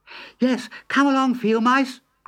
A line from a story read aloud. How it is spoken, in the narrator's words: cried Mole